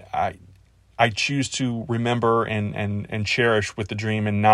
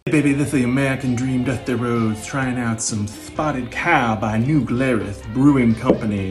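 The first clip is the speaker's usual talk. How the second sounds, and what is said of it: Imitates another person's voice. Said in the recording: “give my best promo in my best Dusty voice ... Well, it's not the best”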